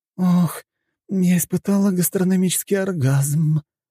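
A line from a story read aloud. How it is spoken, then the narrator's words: Girl moaning with pleasure. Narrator (Russian): простонала девушка, отведав одну лишь ложку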